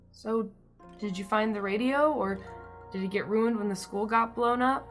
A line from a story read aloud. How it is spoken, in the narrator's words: You rasped